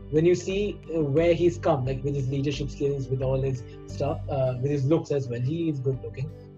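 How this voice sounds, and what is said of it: Non-resident Indian English accent. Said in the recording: “Even my accent right now, I would say I have an NRI accent.”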